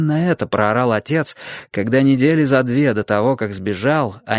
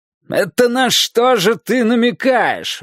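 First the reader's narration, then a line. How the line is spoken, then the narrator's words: Father yelling. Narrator (Russian): вопил отец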